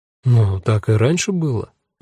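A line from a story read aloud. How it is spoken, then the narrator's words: Soft. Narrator (Russian): мягко сказал ее безымянный друг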